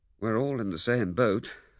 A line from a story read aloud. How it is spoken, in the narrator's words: said Lewisham